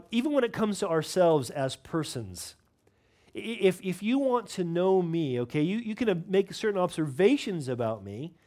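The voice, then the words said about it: Non-local regional accent. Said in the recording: “I'm not from Norfolk. You can tell it by my accent.”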